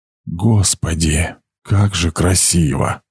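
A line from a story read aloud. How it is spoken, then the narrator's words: Whisper. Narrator (Russian): прошептал он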